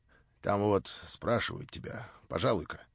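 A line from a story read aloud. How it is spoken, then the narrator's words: Mysterious voice. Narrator (Russian): сказала она каким-то таинственным голосом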